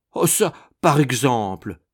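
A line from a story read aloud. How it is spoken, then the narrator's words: Exclaimed. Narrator (French): s'exclamait Madame Malicet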